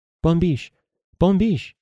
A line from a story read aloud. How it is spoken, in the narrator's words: she exclaimed